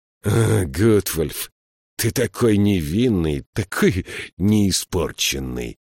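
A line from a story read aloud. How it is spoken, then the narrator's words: Hoarse laughter. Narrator (Russian): Элиас хрипло рассмеялся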